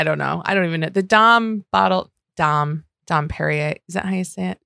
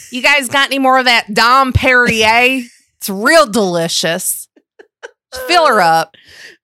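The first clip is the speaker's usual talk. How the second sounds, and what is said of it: Put-on Southern American accent. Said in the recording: “did you just do a Southern accent? Because I've never heard you do that before. And I liked it.”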